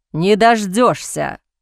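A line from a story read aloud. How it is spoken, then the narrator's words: Growl. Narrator (Russian): прорычал Бастиан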